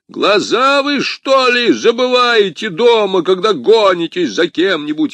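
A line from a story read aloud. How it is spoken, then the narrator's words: Yelling. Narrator (Russian): орал Портос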